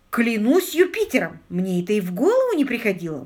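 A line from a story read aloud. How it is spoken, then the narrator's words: Exclaiming. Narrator (Russian): воскликнул Питер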